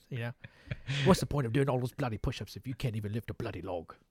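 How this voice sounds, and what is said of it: Attempted impression drifting into Australian accent. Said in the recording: “Michael Caine impression ... you were almost there, but you ended up doing Australian. That was straight Crocodile Dundee.”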